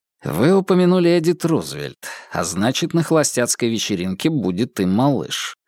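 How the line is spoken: Plain. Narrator (Russian): сказал Адамс

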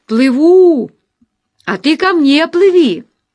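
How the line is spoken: Shouted. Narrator (Russian): крикнул ей

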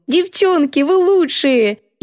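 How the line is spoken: Laughing. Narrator (Russian): засмеялась

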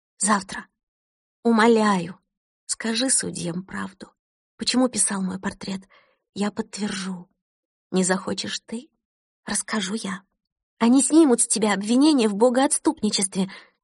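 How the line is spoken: Fervent whisper. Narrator (Russian): горячо зашептала Кристина

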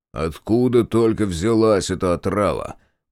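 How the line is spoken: Grumbling. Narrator (Russian): проворчал Райдер

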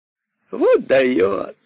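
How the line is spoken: Tender amused laughter. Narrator (Russian): смеялись кролики, чувствуя нежность к королю от того, что он, король, зависит от их, кроликов, голосования

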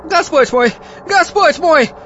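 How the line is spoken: Wailing cry. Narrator (Russian): вопияла Бекка

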